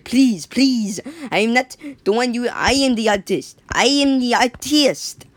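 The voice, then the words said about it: Put-on French accent. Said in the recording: “please do not bully my accent ... if you're French, don't don't be. Don't take this. Don't take this seriously”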